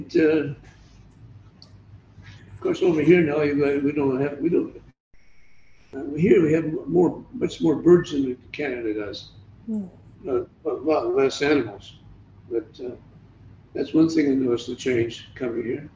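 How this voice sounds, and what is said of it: Canadian accent. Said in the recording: “I'm pretty well Australian, except my accent, it hasn't changed too much”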